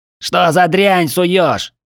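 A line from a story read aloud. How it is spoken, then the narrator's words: Yelling short man. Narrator (Russian): завопил коротышка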